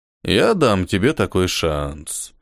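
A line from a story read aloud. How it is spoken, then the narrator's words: Drawling male voice. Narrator (Russian): протянул он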